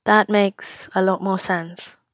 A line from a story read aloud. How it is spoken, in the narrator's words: he says quietly